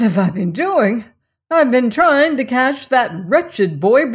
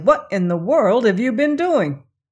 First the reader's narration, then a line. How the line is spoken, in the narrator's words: said Tucker crossly